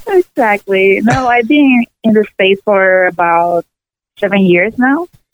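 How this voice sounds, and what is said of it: Slight Spanish accent. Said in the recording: “a little bit of a Spanish accent. You sound like my Cuban half of the family ... Puerto Rican ... So I still have my accent.”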